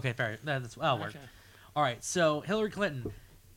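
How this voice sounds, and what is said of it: Usual voice. Nothing is said of it.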